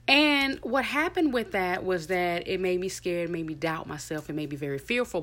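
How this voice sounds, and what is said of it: Thick foreign accent. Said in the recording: “my accent was too thick ... people don't understand me. I had to always repeat myself.”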